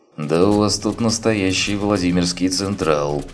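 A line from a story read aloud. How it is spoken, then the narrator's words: Young man snorting. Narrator (Russian): хмыкнул парень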